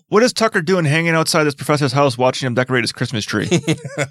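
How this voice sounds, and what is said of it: Non-American accent. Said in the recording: “have you not heard my accent? I'm not even from America.”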